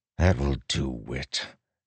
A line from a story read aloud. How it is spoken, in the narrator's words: Delinar said with a sigh